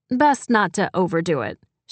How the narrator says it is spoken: said

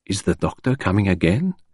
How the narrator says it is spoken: asked Poirot in a whisper

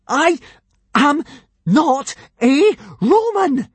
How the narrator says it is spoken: gasped Hiccup

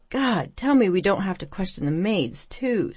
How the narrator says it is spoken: Stacy sighed

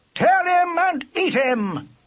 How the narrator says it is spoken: yelled the huntsman

